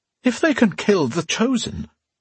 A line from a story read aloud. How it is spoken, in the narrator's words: wailed a noblewoman